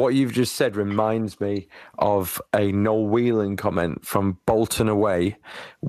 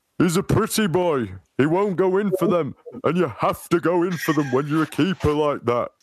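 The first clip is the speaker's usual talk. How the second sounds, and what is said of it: Imitates another person's voice. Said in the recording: “Good impression”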